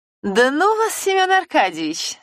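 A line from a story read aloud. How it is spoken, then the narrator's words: Laughing woman. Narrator (Russian): смеясь, махнула рукой дама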